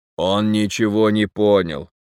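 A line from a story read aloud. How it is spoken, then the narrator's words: Sudden words through gritted teeth. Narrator (Russian): вдруг процедил Фрол, обращаясь к толстяку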